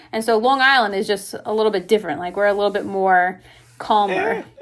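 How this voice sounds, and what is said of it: Noticeable regional accent. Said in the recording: “I love your accent so much.”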